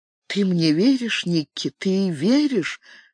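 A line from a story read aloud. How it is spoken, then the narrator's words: Whispered question. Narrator (Russian): Катарин шепотом спросила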